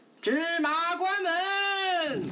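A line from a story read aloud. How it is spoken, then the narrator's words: Robbers shouting. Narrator (Chinese): 强盗们又大喊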